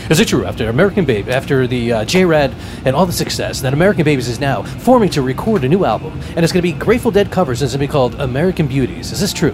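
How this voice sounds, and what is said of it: Mock radio announcer voice. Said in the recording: “I'm going to get in like radio voice here.”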